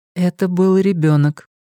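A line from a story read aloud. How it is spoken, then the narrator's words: Level-voiced objection. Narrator (Russian): ровным голосом возразила Френ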